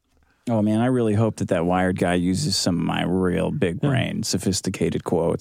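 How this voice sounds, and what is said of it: Speaking with vocal fry. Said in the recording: “vocal frying ... he started getting a little vocal”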